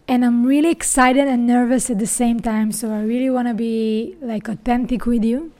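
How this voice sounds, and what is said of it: Israeli accent. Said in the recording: “my accent, if you asked yourself, what is that? So I'm an Israeli.”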